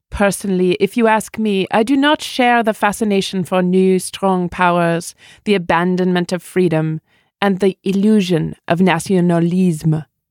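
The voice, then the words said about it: Macron's French accent imitated. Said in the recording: “President Emmanuel Macron just said ... I'm giving up the accent.”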